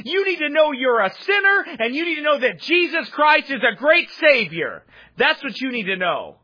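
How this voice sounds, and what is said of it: Yelling preacher. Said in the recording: “I'm yelling, ... you'd start yelling too”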